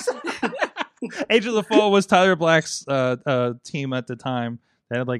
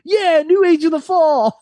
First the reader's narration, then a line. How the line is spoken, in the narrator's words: Omega screamed